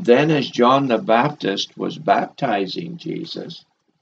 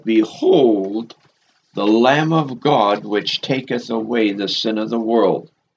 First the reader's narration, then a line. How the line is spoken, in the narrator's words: John the Baptist identified Jesus as that perfect, unblemished, sacrificial Lamb of God when he cried out